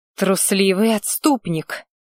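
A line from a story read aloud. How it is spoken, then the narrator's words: Contemptuous, through gritted teeth. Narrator (Russian): процедила презрительно скривившись бывшая зрящая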